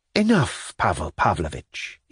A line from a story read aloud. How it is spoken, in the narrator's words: he said softly, blushing violently and with some show of irritation